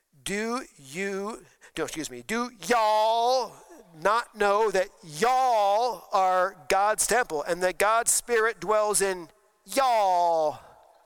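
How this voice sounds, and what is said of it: Put-on Southern US accent. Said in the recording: “trying to give me a proper Southern accent so I could say, y'all ... I have to go down south to get it”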